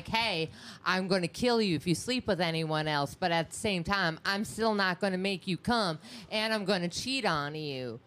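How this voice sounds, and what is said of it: Put-on Southern drawl. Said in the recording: “where's this accent coming from? ... Your southern drawl, even though you're from Wisconsin.”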